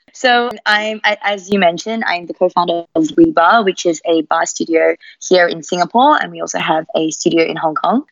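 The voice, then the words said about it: Mixed Australian accent. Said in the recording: “I have this Australian accent ... my accent's a little bit all over the place”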